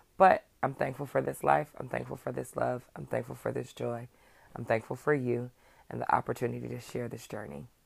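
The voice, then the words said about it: Hoarse, strained voice. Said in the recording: “I know I sound crazy. I'm losing my voice.”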